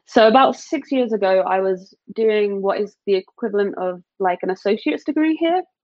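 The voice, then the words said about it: British accent. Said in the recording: “obviously you have an accent ... I'm from the UK ... still kind of have the accent, like it's kind of there”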